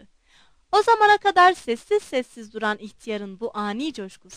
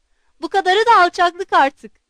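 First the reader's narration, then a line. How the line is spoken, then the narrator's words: Shouting. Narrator (Turkish): diye bağırdı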